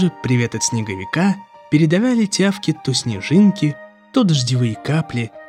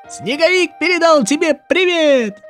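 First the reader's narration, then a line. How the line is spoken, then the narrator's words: Icicle shouting. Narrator (Russian): крикнул сосулька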